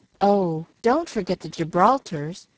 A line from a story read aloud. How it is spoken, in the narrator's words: cried Jill